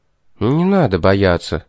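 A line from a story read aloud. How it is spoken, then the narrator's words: Soft, gentle. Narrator (Russian): мягко сказал ей Тормод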